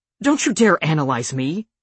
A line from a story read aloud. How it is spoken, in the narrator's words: she snaps